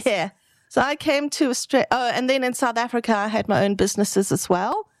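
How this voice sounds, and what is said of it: South African accent. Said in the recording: “they're all in South Africa ... people can probably hear an accent there”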